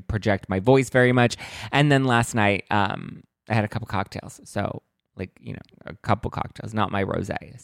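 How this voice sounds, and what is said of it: Hoarse, worn-out voice. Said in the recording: “My voice is a little bit gone ... my voice is a little kind of almost gone-ish”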